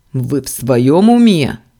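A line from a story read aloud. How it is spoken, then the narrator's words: Startling bark. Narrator (Russian): рявкнул заставляя подпрыгнуть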